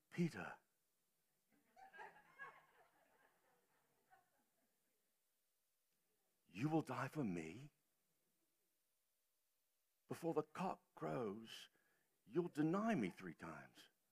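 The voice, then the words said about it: Put-on English accent. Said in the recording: “guy with an English accent ... forget the accent”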